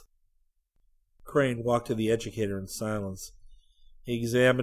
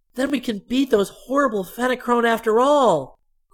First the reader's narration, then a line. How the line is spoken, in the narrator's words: cried Dorothy